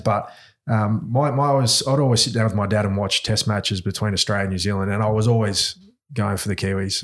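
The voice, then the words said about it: Australian accent. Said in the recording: “you can tell by my accent, I've got an Aussie accent”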